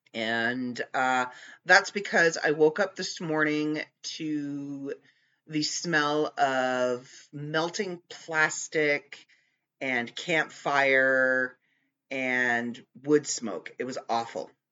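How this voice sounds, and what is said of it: Raspy, congested voice. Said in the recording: “you can probably tell by the sound of my voice, it's a little raspy ... I'm still very congested”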